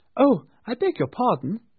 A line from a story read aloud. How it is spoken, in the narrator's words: exclaimed